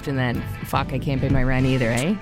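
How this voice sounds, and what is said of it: Strong Canadian Ontario accent. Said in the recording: “That was the most Canadian I ever heard you sound. ... It's my Ontarian accent.”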